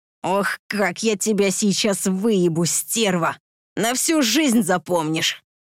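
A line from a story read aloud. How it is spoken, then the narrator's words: Excited growl. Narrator (Russian): Возбужденно прорычал мудак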